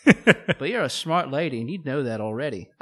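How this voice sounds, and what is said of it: Put-on Australian accent. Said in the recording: “on account of me being Australian ... oh, you're so charming with your accent.”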